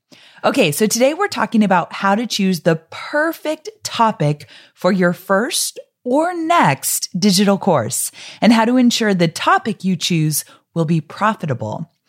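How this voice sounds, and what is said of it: Slightly congested, stuffy voice. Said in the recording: “I have a little bit of a cold. And so if you listen to my podcast regularly, you probably can pick that up right away”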